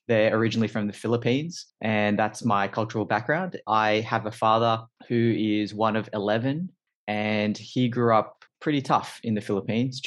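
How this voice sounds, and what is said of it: Australian accent. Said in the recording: “as you could probably tell from my accent, quite quickly, I'm from Australia, specifically Sydney”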